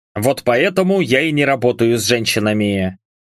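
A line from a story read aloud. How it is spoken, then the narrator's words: Snort. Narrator (Russian): хмыкнул Хендерсон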